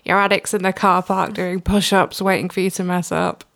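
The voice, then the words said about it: Put-on Mancunian accent. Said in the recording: “This is a Mancunian accent. ... I promise not to talk in that voice again.”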